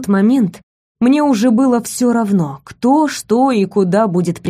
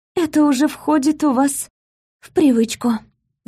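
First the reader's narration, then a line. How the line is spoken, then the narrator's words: Barely audible remark. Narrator (Russian): заметила чуть слышно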